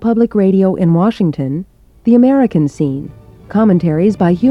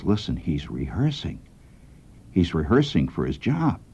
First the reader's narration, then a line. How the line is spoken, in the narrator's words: he whispers to me, he says